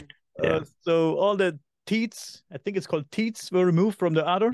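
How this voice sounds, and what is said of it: German accent. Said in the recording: “my German accent ... everybody loves your German accent”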